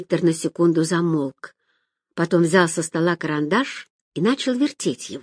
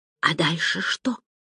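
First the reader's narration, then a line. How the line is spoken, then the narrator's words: Whisper. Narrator (Russian): прошептала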